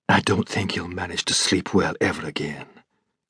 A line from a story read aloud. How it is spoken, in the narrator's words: Clouston whispered